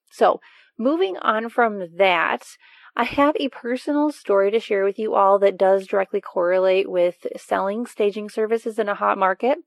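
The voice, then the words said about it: Weakened voice recovering from illness. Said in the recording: “My voice is not up to par yet. I was sick a couple weeks ago ... its hallmark was taking away my voice. So at least my voice is back. It's just not quite normal yet.”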